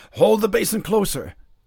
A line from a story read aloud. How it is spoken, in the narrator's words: Charles exclaimed